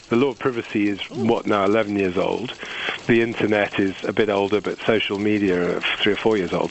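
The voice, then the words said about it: Accent like Idris Elba's Luther. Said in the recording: “that's completely the Luther accent that Idris Elba puts on.”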